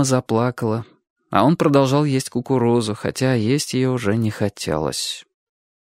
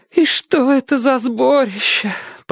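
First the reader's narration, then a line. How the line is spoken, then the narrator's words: Tearful mother. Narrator (Russian): продолжала мать сквозь слезы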